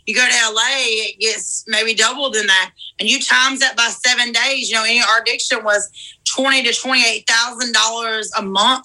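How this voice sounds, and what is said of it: Southern US accent. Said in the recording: “she still got that same accent ... She still sounds very high class ... The southern math ... In Georgia”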